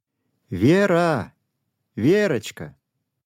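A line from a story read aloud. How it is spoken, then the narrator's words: Loud call. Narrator (Russian): громко позвала мама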